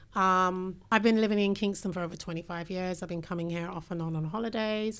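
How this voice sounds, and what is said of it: British accent. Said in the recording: “I have a British accent, clearly.”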